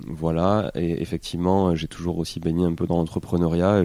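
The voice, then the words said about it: Toulouse accent, southern French. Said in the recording (French): “les Toulousains me disent que j'ai pas trop d'accent, et dès qu'on n'est pas de Toulouse, on me dit que j'ai un fort accent. ... Ouais, si, si, ça s'entend”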